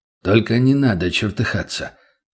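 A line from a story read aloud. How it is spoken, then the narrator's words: Slightly hoarse bass. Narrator (Russian): произнес тот чуть хрипловатым басом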